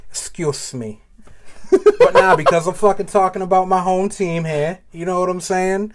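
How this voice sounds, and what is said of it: Exaggerated Massachusetts accent. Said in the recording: “he about to go full accent ... I'm Massachusetts born”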